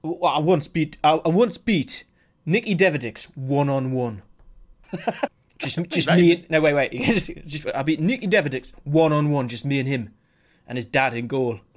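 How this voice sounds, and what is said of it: Newcastle accent. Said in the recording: “that is a fucking brilliant Newcastle accent.”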